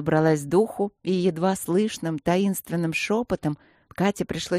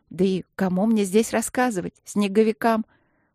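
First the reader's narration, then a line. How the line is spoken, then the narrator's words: With a chuckle. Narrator (Russian): Подруга со смешком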